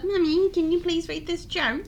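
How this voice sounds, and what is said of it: Child character voice, unusual accent. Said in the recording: “what accent is Shanice got? ... She's been raised somewhere else.”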